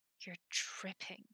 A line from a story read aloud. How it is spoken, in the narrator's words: hissed